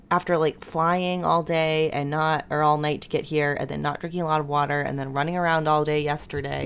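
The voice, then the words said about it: Scratchy throat with vocal fry. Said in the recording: “I woke up with a really lovely millennial case of scratchy throat. So I really sound like I'm doing the, you know, like the millennial glottal fry ... The vocal fry ... the vocal fry. But it's just how my voice is sounding today”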